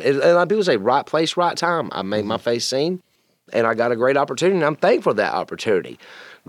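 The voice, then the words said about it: Southern twang accent. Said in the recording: “You have a telltale twang to your voice.”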